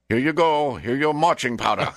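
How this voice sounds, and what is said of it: Put-on Asian accent. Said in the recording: “I don't know why Bolivians speak with an Asian accent, but they do.”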